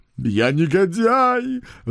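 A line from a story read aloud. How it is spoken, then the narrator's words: Wailing. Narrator (Russian): вопил он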